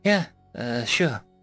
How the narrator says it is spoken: I said in a defeated tone

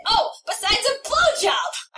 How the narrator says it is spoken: I scream

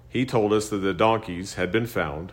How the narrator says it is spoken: Saul replied

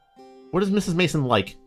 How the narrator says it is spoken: asked Holmes

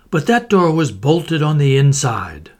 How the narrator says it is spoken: I cried

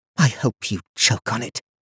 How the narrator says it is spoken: she muttered

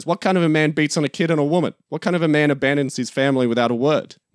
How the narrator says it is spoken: Tony shouts at her

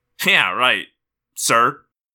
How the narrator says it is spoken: Marco snorted

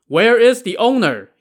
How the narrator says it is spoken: he called out

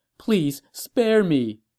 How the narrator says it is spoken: the quivering empress begged

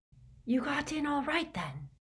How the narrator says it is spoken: Hermione whispered

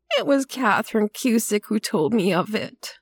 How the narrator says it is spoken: she said in a crackling voice

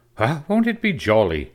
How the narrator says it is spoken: exclaimed the twins

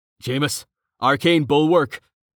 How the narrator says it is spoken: Samson barked

